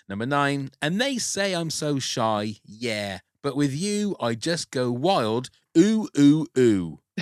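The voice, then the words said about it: West Country English accent. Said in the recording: “the ooh, ooh, ooh in a West Country accent”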